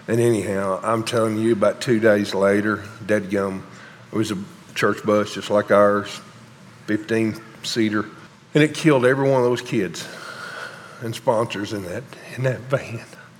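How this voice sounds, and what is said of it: Emotional, strained voice. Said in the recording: “I'm a little emotional.”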